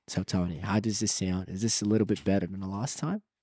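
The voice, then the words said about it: Put-on Australian accent, bit exaggerated. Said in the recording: “I'm from Bombón Live Beach, you know, Australia ... I'm going to work on an accent ... Or is it still a little exaggerated? ... It's a little bit better.”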